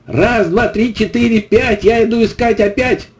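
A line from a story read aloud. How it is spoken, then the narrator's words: Shout again. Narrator (Russian): Костик ... крикнул снова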